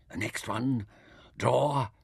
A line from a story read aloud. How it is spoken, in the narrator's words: whispered Taita